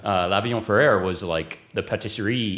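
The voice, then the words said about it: Poor attempt at French accent. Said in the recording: “please excuse my French accent, which is total bollocks”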